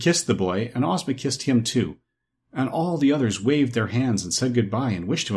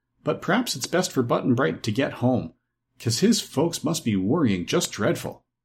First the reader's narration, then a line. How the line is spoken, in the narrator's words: said Dorothy with a sigh, for she was fond of her little comrade